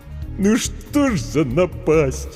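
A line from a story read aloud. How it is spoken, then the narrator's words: Sobbing. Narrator (Russian): Букер всхлипнул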